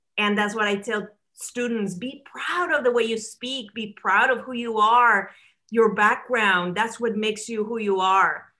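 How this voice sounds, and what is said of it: Speaks with a foreign accent. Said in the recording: “I still have an accent. My accent does not go away when you become an American citizen”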